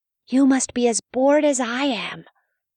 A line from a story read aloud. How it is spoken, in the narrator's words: Mouse whispered to his pet